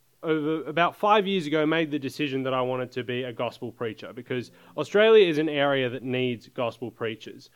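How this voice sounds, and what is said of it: Australian accent. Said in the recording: “I am from Australia. You may have picked up the accent a little bit.”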